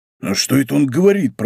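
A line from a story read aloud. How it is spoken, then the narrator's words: Grumbled. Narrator (Russian): проворчал Портос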